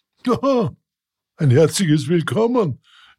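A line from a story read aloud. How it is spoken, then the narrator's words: Dog calling from afar. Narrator (German): rief ihm der Hofhund Sultan schon von Weitem zu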